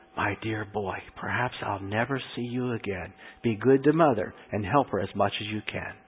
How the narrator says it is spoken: He whispered

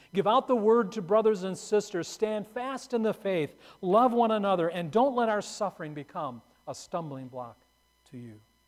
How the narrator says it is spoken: Perpetua called out to some grieving friends

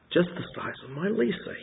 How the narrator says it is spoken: muttered

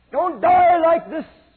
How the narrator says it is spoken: he begged them

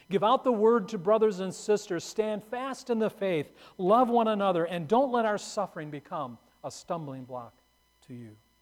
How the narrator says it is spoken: Perpetua called out to some grieving friends

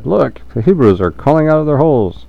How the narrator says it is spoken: When the Philistines saw them coming, they shouted

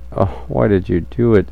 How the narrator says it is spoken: He groaned

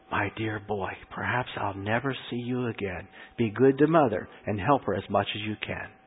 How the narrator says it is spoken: He whispered

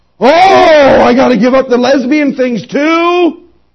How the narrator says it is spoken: she hollers out

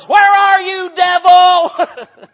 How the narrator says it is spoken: I shouted at the top of my voice

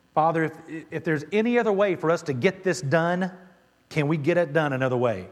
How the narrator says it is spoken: Jesus cried out to God and said

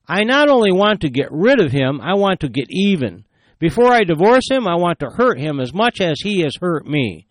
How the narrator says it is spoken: She exclaimed

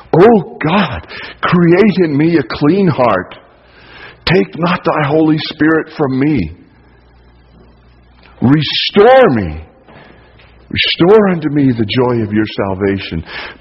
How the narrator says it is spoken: plead with God

